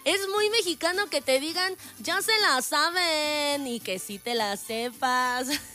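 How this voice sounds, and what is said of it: Put-on Mexico City accent. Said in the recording (Spanish): “léase con acento chilango. ¿Lo hice bien? ... a veces siento que el acento como que no me sale tan igual. Pues es que yo no soy de allá”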